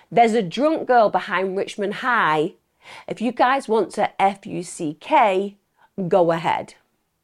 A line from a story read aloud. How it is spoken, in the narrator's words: 2 Hispanic males and 1 black male near the school shouting